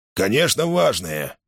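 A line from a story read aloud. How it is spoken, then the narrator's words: Grumbling. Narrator (Russian): проворчал Мейсон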